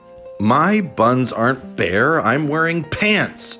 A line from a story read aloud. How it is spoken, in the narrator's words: Cy yelled out